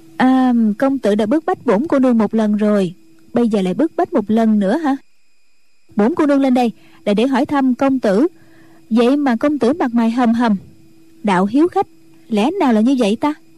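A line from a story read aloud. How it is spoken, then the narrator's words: Smiling. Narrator (Vietnamese): Triệu Mẫn mỉm cười nói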